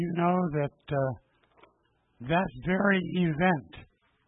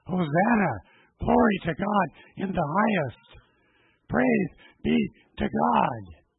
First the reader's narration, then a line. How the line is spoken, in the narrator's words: people shouting and exclaiming